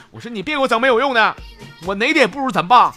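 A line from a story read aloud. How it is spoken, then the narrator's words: Shout. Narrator (Chinese): 我又喊了一句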